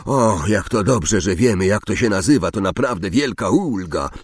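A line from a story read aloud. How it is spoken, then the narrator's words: Sarcastic growl. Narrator (Polish): warknął Ron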